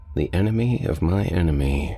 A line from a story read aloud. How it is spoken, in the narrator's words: I said